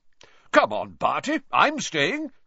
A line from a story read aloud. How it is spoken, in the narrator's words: said Bagman, brightly